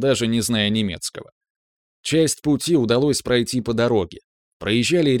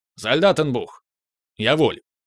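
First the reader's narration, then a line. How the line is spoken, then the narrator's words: Barking shout. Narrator (Russian): гаркнул Илья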